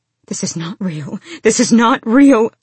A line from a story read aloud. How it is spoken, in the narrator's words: she gasped